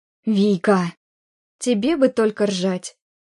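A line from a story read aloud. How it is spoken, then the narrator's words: Reproachful exhale. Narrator (Russian): выдохнула Оля с упреком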